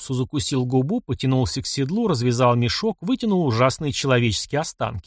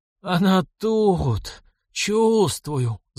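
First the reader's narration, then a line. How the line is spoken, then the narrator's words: Moaning. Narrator (Russian): застонала голова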